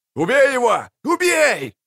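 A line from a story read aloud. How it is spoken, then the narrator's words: Crowd yelling. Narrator (Russian): орали зрители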